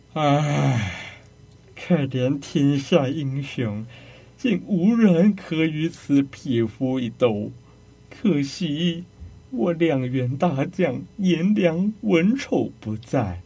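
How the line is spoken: Long sigh. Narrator (Chinese): 袁绍长叹一声

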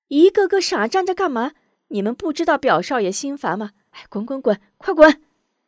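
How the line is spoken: Shouting, irritated. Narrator (Chinese): 嚷道

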